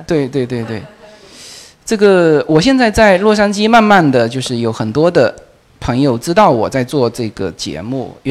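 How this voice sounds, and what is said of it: Fuzhou-accented Mandarin. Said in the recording (Chinese): “我的福州普通话是有问题的...我的这个口音是绝对会给我这个内容是造成问题的...这个口音辨识度很高”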